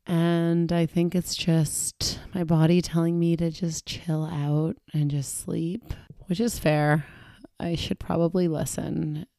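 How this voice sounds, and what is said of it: Congested voice with a cold. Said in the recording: “I am not feeling my best ... I have a cold ... I have a cold”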